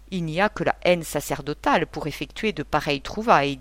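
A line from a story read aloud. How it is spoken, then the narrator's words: Plain. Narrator (French): dit Durtal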